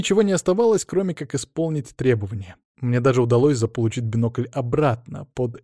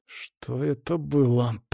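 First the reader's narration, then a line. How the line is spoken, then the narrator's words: Growling. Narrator (Russian): прорычал Веня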